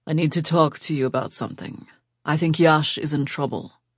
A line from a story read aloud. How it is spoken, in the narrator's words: said in a low voice